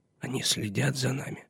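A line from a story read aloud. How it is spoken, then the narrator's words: Whisper. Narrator (Russian): шепнул он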